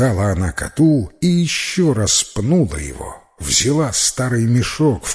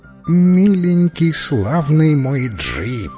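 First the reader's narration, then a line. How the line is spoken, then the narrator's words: Hoarse, feigned tenderness. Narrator (Russian): прохрипела она притворно-ласково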